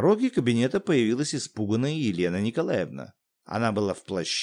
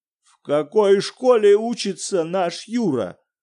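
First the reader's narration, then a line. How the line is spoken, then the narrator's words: Terrible-voiced question. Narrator (Russian): спросил Виктор Петрович ужасным голосом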